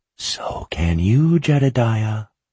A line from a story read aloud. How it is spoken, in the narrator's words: breathed